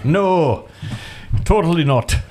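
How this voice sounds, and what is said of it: Bad put-on Irish accent. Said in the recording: “That's a bad Irish accent right there... Sounds like Scottish.”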